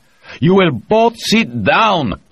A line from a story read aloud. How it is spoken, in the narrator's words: Brumado shouted into the microphone